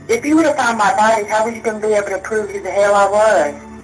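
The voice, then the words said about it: Thick pronounced Southern accent. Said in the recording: “odd Southern accent. ... The accent was really thick. ... She has a Southern accent. It's a pronounced Southern accent.”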